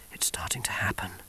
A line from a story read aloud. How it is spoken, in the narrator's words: he whispered, while the storm broke around him